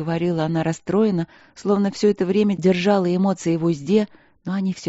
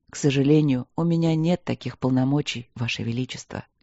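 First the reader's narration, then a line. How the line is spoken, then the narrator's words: Soft, gentle. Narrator (Russian): сказал он мягко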